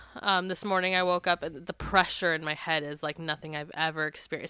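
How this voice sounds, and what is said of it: Sick, weird-sounding voice. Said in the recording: “I am full blown sick ... if I sound weird, if I'm a little laggy, this is why”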